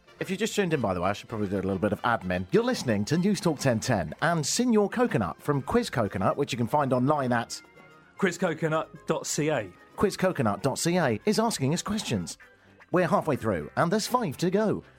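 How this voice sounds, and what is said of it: Game show host voice. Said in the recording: “this is my game show voice”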